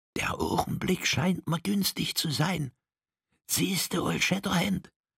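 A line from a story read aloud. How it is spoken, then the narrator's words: Whisper. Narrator (German): flüsterte er diesem zu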